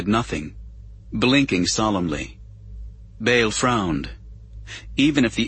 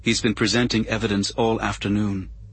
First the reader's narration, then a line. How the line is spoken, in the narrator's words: she said in a flat, effectless monotone